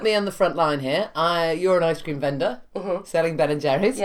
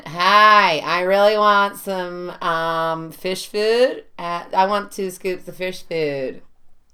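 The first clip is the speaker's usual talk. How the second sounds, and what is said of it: Put-on American accent. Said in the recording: “I'll do American accent.”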